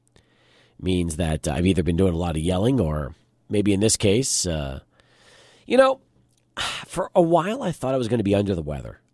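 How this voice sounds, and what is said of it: Raspy, deeper than normal voice. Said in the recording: “As you can hear, I'm a little raspy today. ... my voice gets a little raspy. ... a little deeper today than normal”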